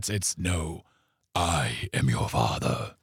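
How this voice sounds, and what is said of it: James Earl Jones impression. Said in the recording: “best James Earl Jones impression”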